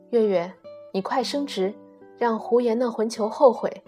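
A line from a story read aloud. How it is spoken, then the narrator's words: Old woman muttering. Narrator (Chinese): 老太太嘀咕着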